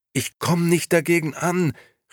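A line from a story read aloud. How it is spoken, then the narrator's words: Calling out across distance. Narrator (German): rief sie schließlich der Schildkröte zu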